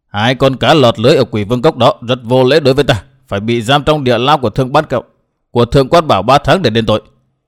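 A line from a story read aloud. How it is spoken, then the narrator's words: Stern, livid woman. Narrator (Vietnamese): sắc mặt Hận Thiên xanh như chàm, bà ta nghiêm giọng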